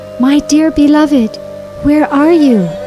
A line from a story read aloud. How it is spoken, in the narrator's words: She ... crying loudly